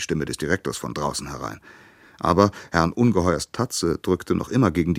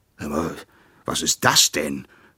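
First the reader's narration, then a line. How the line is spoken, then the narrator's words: Horrified roar. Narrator (German): brüllte er entsetzt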